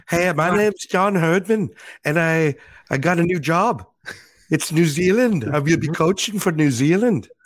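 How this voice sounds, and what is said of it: Imitated Geordie-accented voice. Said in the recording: “I've heard worse impersonations of John than that ... it's not bad ... Geordi accent”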